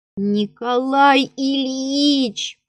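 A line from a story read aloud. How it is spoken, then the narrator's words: Groaning. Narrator (Russian): простонал Алеша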